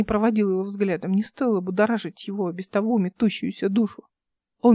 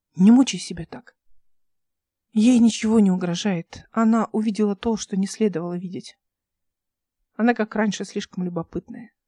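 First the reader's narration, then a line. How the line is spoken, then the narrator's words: Plain. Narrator (Russian): сказала Эл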